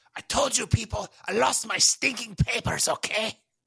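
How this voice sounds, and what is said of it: Put-on German accent. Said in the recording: “Maybe you should talk in a German accent”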